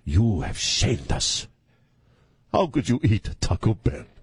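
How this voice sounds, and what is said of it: Dramatic Italian-accented movie character voice. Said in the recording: “she's got this Italian, she's got this really dramatic voice.”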